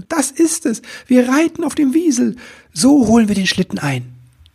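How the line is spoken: Enthusiastic shout. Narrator (German): rief voller Begeisterung

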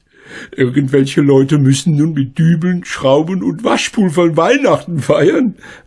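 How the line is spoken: Laughing. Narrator (German): lachte Frau Schmidt

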